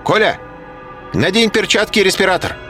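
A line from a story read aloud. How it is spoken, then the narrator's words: Shouted. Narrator (Russian): крикнул профессор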